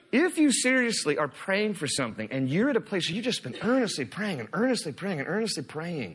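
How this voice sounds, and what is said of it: Usual voice. Nothing is said of it.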